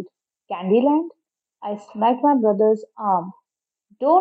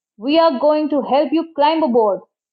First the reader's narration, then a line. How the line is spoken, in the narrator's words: the shorter guy bellowed into the megaphone